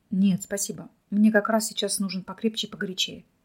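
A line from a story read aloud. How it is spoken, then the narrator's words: Quiet, calmed. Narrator (Russian): негромко ответил Михаил, успокоившись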